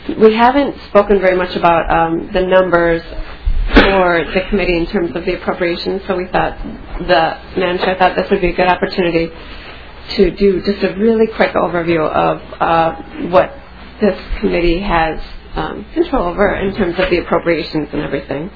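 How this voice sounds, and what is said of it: Slightly strained, fading voice. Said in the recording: “I've been losing my voice a little bit”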